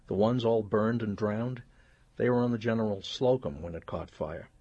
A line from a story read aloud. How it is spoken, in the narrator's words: said, her voice clear and crazed